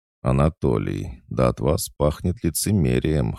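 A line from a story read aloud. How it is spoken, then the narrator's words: Short laugh. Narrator (Russian): хохотнул я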